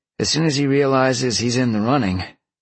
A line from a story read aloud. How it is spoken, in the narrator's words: Sean chuckled